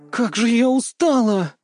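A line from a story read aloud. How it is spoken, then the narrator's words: Tired moan. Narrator (Russian): простонала Канна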